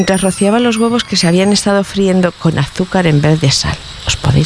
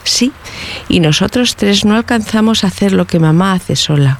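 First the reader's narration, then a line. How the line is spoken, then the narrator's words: Plain. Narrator (Spanish): dijo Tomasito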